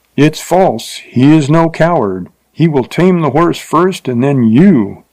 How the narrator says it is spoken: cried a voice so close

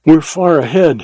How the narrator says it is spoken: he panted

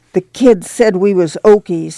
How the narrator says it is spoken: he said in an outraged voice

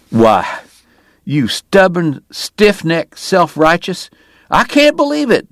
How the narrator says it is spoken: Doc cried

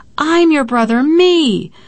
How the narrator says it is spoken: I cursed him, I cried

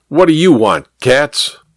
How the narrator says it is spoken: Kramer barked

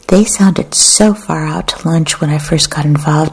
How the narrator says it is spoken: he said

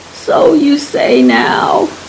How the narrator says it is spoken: he laughed

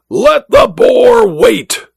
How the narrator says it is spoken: the Duke roared

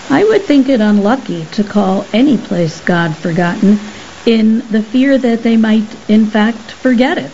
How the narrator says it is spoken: Lysandra observed calmly

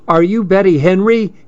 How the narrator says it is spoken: he yelled

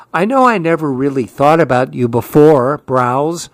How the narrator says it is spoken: said Bernard

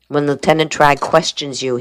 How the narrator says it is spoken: he said

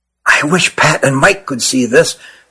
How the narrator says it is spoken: whispered Nathan to his brother

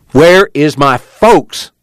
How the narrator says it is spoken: Joad spoke angrily

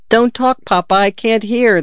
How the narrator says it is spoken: the daughter exclaimed tartly

